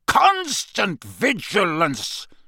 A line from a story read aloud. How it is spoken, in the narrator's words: barked